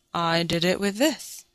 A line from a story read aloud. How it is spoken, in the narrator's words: said Emil meekly